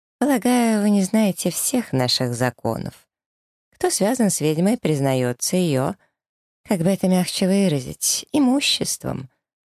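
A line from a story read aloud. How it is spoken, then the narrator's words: Gentle speech. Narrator (Russian): ласково проговаривает Катерина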